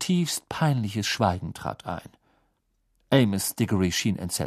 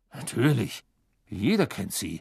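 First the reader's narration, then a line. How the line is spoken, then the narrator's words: Murmuring. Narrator (German): murmelte Mr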